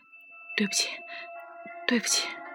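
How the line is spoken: Breathless, after long pause. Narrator (Chinese): 他喘着气，足足过了一分钟之久，他才道

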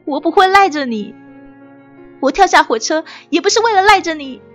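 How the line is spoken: Hysterical, loud. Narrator (Chinese): 说着说着，我开始歇斯底里，大声的说

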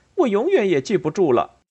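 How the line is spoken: Annoyed. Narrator (Chinese): 安迪恼怒的说

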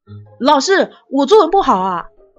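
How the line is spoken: Loud. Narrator (Chinese): 大声的说

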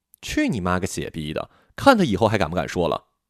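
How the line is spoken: Loud laughing. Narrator (Chinese): 老板哈哈大笑

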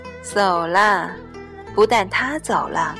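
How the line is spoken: Sighing. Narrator (Chinese): 红姑叹了口气

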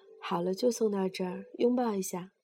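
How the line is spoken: Smiling. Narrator (Chinese): 刘吉微笑着说

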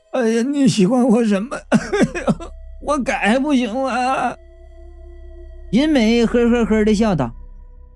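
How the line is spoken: Crying. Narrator (Chinese): 王生就哭了，然后说道

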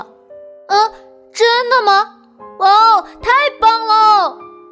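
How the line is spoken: Excited shout. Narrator (Chinese): 闹闹兴奋地喊道

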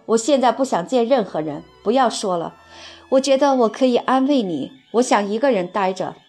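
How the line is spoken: Hoarse shout. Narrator (Chinese): 她声音嘶哑地喊道

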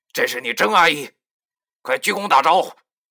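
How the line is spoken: Suppressed anger. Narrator (Chinese): 林叔压着心中的怒火，强着对老易说

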